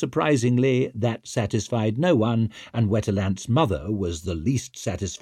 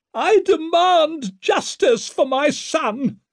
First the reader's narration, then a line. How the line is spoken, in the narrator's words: she screamed from the balcony